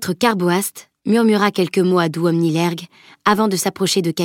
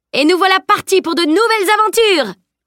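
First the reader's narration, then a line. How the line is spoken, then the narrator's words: Shout. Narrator (French): cria Salim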